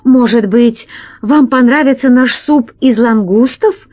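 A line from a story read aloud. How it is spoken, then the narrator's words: Pleading. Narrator (Russian): взмолился Громозека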